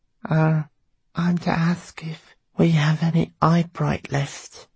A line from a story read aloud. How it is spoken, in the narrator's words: she said timidly